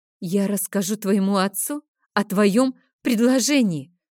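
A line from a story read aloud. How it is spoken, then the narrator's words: Hissing with hatred. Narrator (Russian): зашипела я, отвечая своему обидчику таким же ненавидящим взглядом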